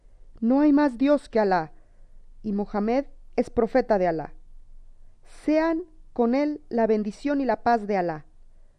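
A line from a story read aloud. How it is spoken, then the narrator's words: Joyful exclamation. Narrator (Spanish): el joven exclamó muy dichoso al verse libre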